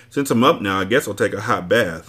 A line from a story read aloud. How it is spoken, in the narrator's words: I said